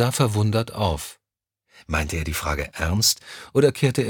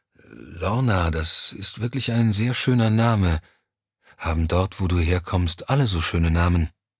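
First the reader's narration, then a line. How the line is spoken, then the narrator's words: Sleepy voice. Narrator (German): Mit schläfriger Stimme sagte Johnny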